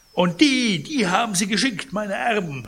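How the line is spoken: Indignant call. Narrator (German): rief Pons empört

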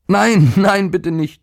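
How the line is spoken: Boy screaming. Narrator (German): schrie der Junge

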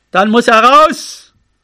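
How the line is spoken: Called out into wind. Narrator (German): Er rief nach vorn in den Wind

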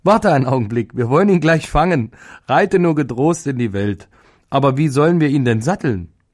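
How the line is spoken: Laughing loudly. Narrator (German): lachte laut und sagte

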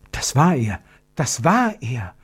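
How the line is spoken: Whispered. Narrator (German): flüsterte Gertrud

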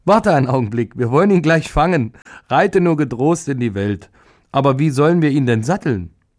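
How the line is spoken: Woman laughing loudly. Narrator (German): die Frau lachte laut und sagte

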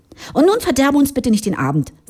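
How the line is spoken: Sharp. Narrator (German): sagte scharf

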